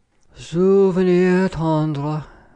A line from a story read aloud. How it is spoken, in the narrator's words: sighed Blackbeard, letting his head fall